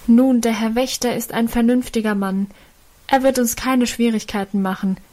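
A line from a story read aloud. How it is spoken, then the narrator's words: Calling out. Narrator (German): rief einer von ihnen dem Vater entgegen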